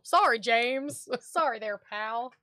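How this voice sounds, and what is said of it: Country accent, Australian attempt. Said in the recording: “Or however Australians talk. ... I have mate. Like a country. Mate. I don't know why I have a country accent.”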